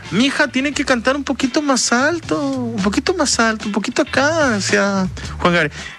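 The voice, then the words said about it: Poor imitation of another person's voice. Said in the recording (Spanish): “es mi mala imitación de Juan Gabriel, horrible... No le hago mucha justicia”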